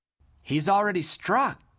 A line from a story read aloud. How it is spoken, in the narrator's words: gasped Dodd